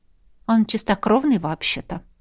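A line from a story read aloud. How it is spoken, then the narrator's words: Quiet objection. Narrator (Russian): тихо возразила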